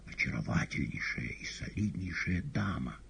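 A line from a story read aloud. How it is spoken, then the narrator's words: Whisper. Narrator (Russian): шептал Коровьев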